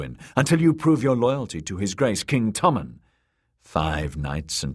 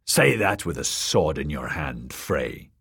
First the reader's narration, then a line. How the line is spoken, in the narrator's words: the small man snarled